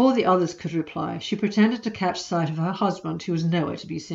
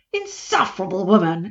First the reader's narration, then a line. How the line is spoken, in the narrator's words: exclaimed Dodo